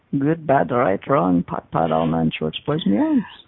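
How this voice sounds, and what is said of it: Brief hint of Serbian accent. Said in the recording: “you threw a little Serbian accent in there almost for a second there”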